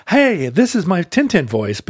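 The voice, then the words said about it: Slightly higher-pitched character voice. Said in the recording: “My voice for Tintin is just my normal voice a little bit pitched up... there's no accent.”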